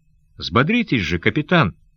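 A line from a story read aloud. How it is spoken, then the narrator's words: Cheerful voice. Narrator (Russian): веселым голосом говорил он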